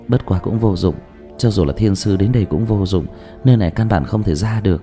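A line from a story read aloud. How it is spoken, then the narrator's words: Sighing. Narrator (Vietnamese): Dương Tư Linh lại thở dài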